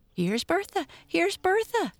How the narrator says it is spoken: cried Henrietta eagerly

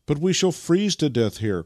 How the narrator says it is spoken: cried Vasily

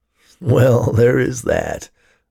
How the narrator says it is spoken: laughed Ted

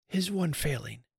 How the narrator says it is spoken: whispered Time

